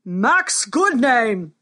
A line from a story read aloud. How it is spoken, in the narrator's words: thundered the king